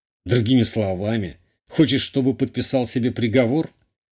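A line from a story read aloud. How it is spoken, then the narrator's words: Snorting. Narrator (Russian): Хмыкнул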